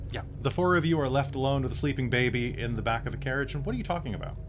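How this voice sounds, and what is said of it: Usual voice. Nothing is said of it.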